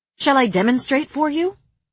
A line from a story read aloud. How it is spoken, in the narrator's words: I said